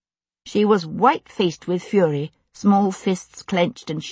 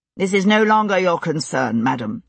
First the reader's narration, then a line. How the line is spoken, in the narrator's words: he said, as coldly as a man who was as red as a piece of flannel and shooting sparks out of his ears could manage